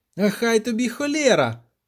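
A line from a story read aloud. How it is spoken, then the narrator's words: Echoing shout. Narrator (Ukrainian): закричав Любисток, аж відлуння пішло між вербами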